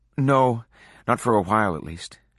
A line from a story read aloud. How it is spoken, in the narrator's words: she said